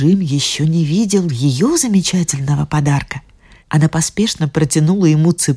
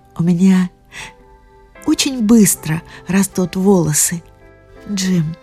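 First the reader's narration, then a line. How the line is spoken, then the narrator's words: Through tears. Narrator (Russian): улыбнуться сквозь слезы, сказала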